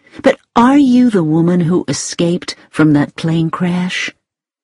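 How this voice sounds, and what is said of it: Pleasant woman's voice, American accent. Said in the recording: “in a pleasant voice with an American accent.”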